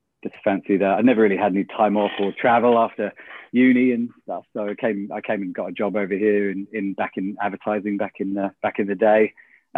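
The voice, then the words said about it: British accent. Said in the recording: “Simply tell from my accent, the UK originally”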